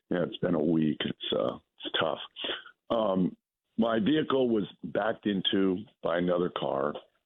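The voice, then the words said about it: Hoarse, strained voice. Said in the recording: “my terrible laryngitis”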